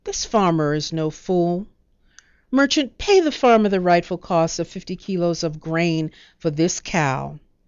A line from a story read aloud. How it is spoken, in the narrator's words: the judge ruled firmly